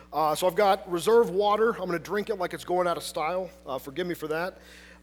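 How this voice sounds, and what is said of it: Hoarse, fading voice. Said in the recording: “apologize for my voice, which is deciding this morning to disappear ... a man who sounds like one”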